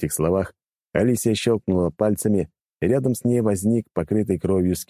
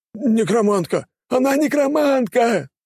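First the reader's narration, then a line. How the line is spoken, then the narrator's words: Frightened crew screaming raggedly. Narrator (Russian): завопили в разнобой испуганные члены экипажа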